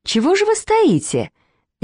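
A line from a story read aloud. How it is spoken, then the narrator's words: Cheerful. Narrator (Russian): весело сказала она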